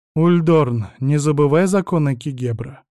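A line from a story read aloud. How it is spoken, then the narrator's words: Calm female voice. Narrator (Russian): произнесла Сабина, спокойно смотря на него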